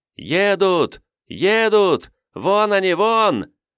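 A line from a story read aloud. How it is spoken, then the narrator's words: Overlapping excited shouts. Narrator (Russian): наперебой закричали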